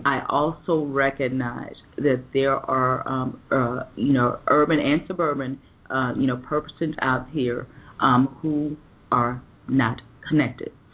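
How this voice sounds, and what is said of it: Rural American accent. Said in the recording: “you could probably tell by the accent, I am from a rural state”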